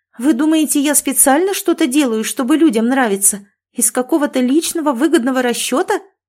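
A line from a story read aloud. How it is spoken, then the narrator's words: Shriek. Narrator (Russian): взвизгнула я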